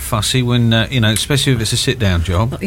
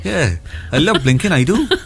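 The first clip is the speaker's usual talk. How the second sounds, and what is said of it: Imitated Welsh accent. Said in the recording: “There was a Welsh girl that come out and said, "I love blinking, I do," ... That was a Welsh accent.”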